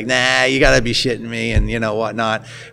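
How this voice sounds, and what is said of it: Put-on heavy Boston accent. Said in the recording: “He's got like a heavy Boston accent ... in my worst or best Boston accent”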